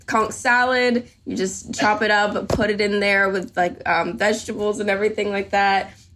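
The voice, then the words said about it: Home Caribbean accent slipping through. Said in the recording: “you can hear, as he was saying that, the accent came out ... Whenever I talk about home, the accent comes out a little bit. This is my podcast voice”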